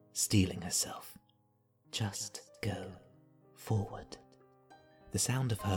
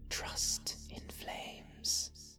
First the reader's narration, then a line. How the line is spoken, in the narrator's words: she whispered to the night